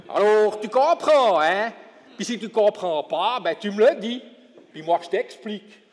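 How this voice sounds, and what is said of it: Jura bernois regional French accent. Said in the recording (French): “je parle français, mais pas nécessairement le français de Paris ou bien le français de Genève. ... on a un peu un accent chez nous, quoi, Jura bernois”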